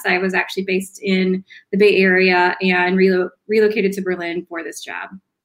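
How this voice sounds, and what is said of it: American English accent. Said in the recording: “as you can tell from my accent, I relocated from the U.S.”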